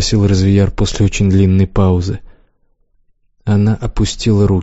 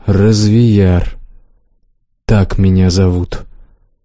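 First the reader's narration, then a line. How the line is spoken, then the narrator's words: Slow. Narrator (Russian): сказал он медленно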